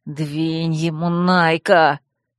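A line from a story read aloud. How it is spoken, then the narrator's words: Frightened hiss. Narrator (Russian): испуганно прошипел Динор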